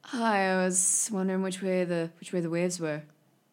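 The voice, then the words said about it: Beach bum character voice. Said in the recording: “beach bum druid... character voice”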